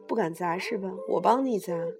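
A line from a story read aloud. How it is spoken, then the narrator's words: Cold. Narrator (Chinese): 程达冷冷地说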